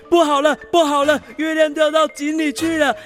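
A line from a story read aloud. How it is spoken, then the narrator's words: Shouting in alarm. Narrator (Chinese): 大猴子也跟着叫起来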